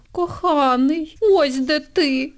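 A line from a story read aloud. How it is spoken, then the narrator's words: Exclaiming. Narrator (Ukrainian): вигукнула Ангеліна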